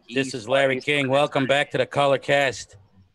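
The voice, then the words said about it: Imitates another person's voice. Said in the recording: “Larry King, the fake Larry King ... Larry's a tough impersonation. I'm going to have to listen to Larry's voice”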